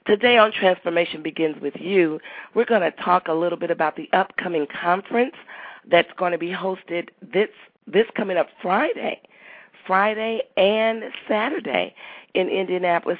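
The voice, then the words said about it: Congested, stuffy-sounding voice. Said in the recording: “I'm a little congested and a little stopped up. So if my voice sounds a little different than normal”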